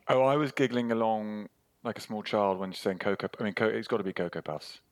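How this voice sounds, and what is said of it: British accent. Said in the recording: “with that accent, what kind of sugary cereals did you have in the UK?”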